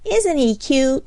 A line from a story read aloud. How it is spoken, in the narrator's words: exclaimed Flossie